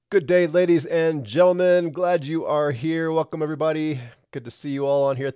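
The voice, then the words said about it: Sick-sounding voice. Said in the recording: “As you can probably tell in my voice, I'm about the same. I don't, this thing is hanging on.”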